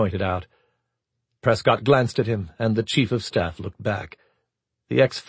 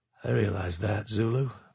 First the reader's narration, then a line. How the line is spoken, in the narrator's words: Prescott said softly